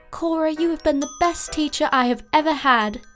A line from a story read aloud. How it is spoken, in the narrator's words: exclaimed Allie